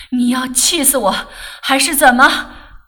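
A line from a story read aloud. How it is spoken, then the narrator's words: Breathless, panting. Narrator (Chinese): 他父亲坐在沙发上直喘气，说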